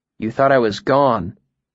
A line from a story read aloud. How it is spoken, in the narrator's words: I corrected gently